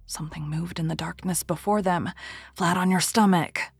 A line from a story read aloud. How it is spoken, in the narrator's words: whispered the Persian